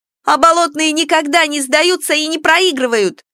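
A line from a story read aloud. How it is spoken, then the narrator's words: Much louder shout. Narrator (Russian): выкрикнула она гораздо громче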